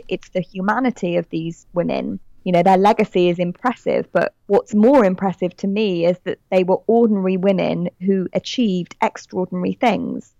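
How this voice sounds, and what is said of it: British accent. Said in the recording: “I'm British, as you can tell from my accent”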